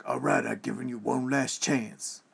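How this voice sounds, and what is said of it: Gruff Danny Glover impression. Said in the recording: “that was the gruff... he sounded like friggin' Danny Glover... my best Danny Glover impression”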